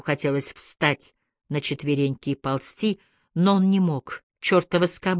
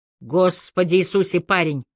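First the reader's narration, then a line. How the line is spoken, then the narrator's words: Shouted over shoulder. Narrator (Russian): сказал главный инспектор и крикнул через плечо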